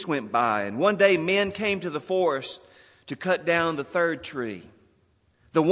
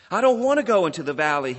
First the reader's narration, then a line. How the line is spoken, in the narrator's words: he cried